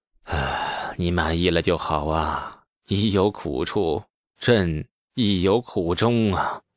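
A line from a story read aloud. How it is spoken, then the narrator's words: Long weary sigh. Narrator (Chinese): 李世民 长长一叹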